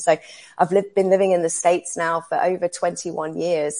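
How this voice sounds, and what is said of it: English accent. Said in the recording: “I can hear that you're not from America originally ... the accent is from England ... I've retained this accent somehow”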